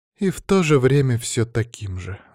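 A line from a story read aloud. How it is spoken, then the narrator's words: Sighing. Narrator (Russian): вздохнула Бьянка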